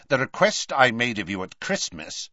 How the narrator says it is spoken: said Scrimgeour, his voice cold now

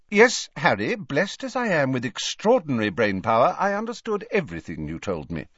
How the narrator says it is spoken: said Dumbledore a little sharply

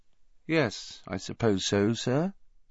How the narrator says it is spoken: he said finally, in an expressionless voice

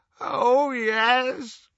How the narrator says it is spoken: moaned Creature

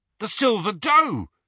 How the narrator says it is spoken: he said excitedly

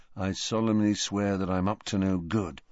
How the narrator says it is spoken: murmured, murmuring

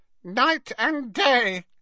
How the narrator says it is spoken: croaked Creature

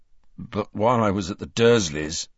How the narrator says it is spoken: interrupted Harry, his voice growing stronger

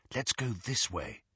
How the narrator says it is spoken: Hermione murmured

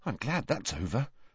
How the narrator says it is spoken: muttered

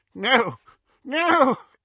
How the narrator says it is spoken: He choked and retched

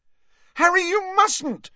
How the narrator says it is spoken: shrieked Hermione

